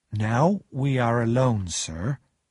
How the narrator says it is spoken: Joe repeated slowly

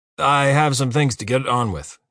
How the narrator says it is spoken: he says curtly

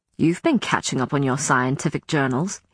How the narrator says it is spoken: he said sharply

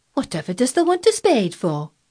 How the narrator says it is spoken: asked Martha, laughing

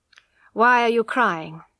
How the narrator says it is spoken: asked coldly

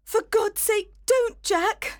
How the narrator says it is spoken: she cried

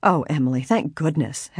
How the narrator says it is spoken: Helen exclaimed in relief

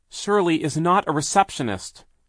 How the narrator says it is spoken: she cried

